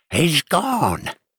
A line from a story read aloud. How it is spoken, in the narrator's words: Grandma cried out